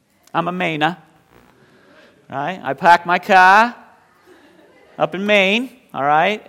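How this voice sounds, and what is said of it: Put-on Maine accent. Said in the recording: “that's a little Maine speech for you”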